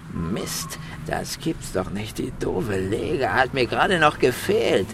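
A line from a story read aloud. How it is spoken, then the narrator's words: Hissing boy. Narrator (German): zischte der fremde Junge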